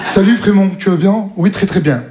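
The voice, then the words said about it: Put-on Parisian French accent. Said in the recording (French): “Ils ont tous accent parisien.”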